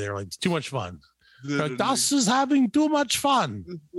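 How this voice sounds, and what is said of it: Put-on German accent. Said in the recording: “that's my best German accent.”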